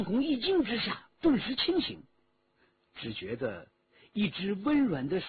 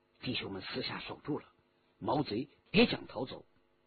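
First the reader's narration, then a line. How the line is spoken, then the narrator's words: Low voice. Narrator (Chinese): 徐天红低声说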